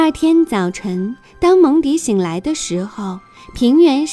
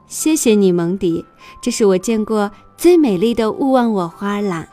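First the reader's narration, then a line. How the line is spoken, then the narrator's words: Smiling. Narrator (Chinese): 妈妈笑着说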